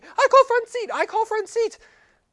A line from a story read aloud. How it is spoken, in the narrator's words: screaming